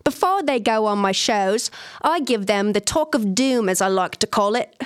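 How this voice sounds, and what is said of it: Put-on Australian accent. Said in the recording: “I'm going to try to do my best Australian accent ... That's pretty good.”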